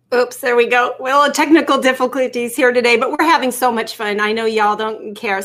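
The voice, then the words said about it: Slight Tennessee twang. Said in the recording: “I'm getting that Tennessee twang a little bit ... I can get that y'all in there.”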